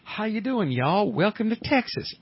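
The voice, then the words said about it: Put-on Texan Southern accent. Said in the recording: “Texas is the number one accent ... Texas dames, they've got a great accent”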